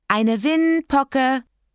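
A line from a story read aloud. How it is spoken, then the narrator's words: Calling from bathroom. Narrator (German): rief Kathi aus dem Bad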